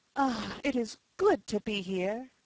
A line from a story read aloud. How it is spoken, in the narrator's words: exclaimed, almost involuntarily